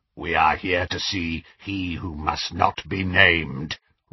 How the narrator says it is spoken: rasped Greyback

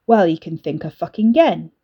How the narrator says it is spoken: Ricky snapped

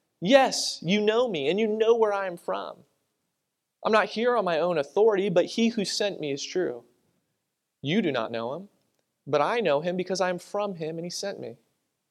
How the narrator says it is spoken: Jesus cried out

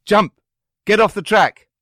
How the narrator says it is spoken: Suddenly, my mother shouted

